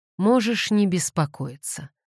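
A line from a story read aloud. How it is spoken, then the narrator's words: Gloomy. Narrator (Russian): мрачно сказал Девон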